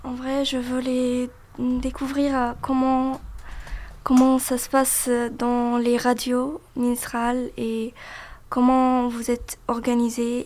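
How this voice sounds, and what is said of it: Egyptian-accented French. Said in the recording (French): “Elle est d'origine égyptienne. Donc, vous excuserez son accent, un accent que je trouve, moi, magnifique.”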